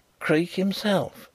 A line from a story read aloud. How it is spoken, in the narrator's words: he whispered across the car